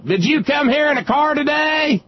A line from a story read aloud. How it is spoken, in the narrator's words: One idiot in the crowd kept hollering